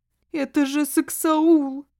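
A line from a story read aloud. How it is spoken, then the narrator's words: Wailing. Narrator (Russian): взвыла хозяйка жилища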